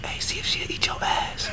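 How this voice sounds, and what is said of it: Whispering. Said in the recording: “I'm going to whisper just how I did it ... That's how I whisper.”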